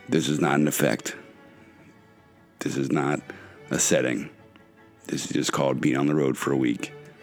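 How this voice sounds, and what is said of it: Deep, raspy voice from illness. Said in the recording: “I'm a little under the weather, so my voice sounds even deeper and raspier than usual.”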